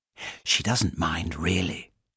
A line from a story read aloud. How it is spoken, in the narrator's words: she whispered